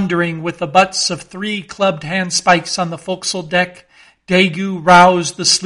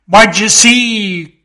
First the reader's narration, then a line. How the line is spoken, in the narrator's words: cried Ahab